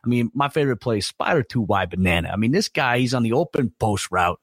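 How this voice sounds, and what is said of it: Impression of Jon Gruden. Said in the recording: “my little impersonation there of John Gruden”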